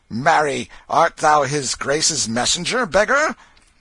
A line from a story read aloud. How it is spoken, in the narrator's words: one rude fellow said